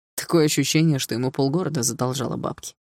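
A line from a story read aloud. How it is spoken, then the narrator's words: Wry snort. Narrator (Russian): хмыкнул Руслан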